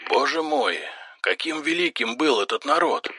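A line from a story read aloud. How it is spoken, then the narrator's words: Breathless exhale. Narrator (Russian): выдохнул Тарн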